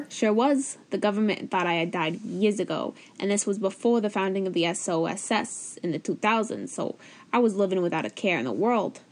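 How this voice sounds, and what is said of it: New York accent. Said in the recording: “I moved to New York. I knew you were waiting for where the accent came in.”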